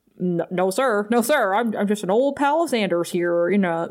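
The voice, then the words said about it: Funny fake American accent. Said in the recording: “he's like saying it in like in a funny American accent.”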